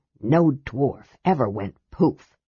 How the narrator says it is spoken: Flint asked in a harsh whisper, adding indignantly

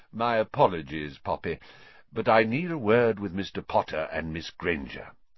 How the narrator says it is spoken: said Dumbledore calmly

